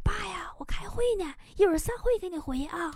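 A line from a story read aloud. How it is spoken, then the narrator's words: Quiet. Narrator (Chinese): 小声说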